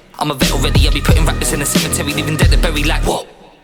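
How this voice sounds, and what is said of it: English accent. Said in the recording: “I'm the guy with the English accent”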